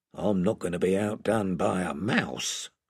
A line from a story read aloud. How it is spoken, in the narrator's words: He added in a lower voice